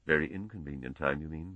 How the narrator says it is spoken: muttered Fulham

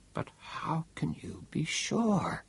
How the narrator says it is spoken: Bogart, afraid to believe, whispered

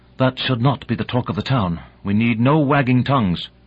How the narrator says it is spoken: Kalinin, her face like thunder, said sharply

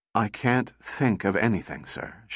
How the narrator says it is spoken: she replied wearily

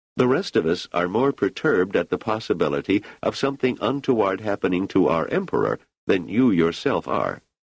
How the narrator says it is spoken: said Selden smoothly

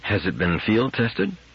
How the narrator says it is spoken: asked Powell anxiously

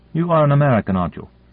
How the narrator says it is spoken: Morrison said sharply

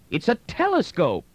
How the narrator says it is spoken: Brandon cried out sharply

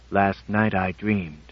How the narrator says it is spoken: said LVX-1 calmly

